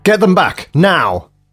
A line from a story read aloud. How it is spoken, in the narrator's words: Grace shouted